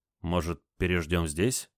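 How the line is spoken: Uncertain question. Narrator (Russian): неуверенно спросил Олег

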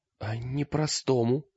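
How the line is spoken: Whisper. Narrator (Russian): прошептала Лиска

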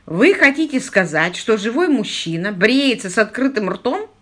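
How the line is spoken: Chuckling. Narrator (Russian): Он хохотнул

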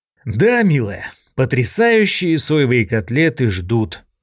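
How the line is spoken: Sighing. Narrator (Russian): вздохнул я

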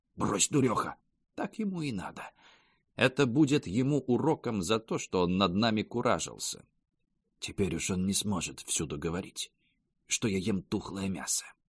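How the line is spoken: Aunt whispering in ear. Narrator (Russian): тетка шепнула на ухо

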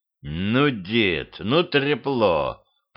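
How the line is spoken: Muttering. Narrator (Russian): пробормотал он

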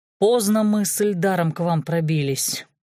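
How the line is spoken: Sigh. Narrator (Russian): вздохнул Зорин

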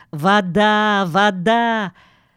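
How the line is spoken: Joyful shouting. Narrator (Russian): Он радостно кричал

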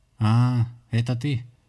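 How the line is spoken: Exhaled words. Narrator (Russian): с той стороны выдохнули

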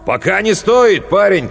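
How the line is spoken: Shout. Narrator (Russian): крикнул Кристобаль

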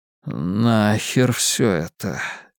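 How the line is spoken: Shaky mutter. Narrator (Russian): нетвердым голосом пробормотал Ричи Тозьер

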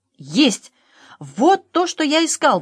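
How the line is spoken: Exclaiming. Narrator (Russian): воскликнул пан Клякса

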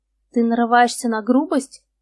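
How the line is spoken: Declared with a snort. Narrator (Russian): заявил Марк и хмыкнул

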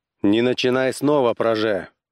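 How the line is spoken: Sharp, commanding. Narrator (Russian): резко сказал Корлис приказным тоном

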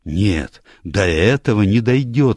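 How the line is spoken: Frightened exclamation. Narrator (Russian): вскричал испуганно

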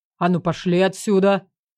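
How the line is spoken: Distant man barking. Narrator (Russian): Рявкнул с берега незнакомый мужской голос

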